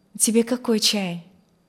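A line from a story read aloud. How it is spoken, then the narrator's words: Plain. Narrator (Russian): спросила Алевтина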